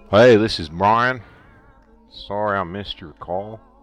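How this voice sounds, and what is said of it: Fairly good put-on American accent. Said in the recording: “How's my American accent? ... That was pretty good, actually. ... It's really good.”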